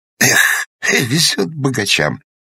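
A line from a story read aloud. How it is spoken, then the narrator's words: Sighing. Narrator (Russian): вздохнул Тургозин, живший на одно жалование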